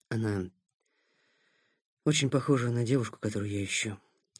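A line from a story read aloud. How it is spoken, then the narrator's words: Choked, strained male voice. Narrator (Russian): сказал танцор сдавленным голосом, пересилив себя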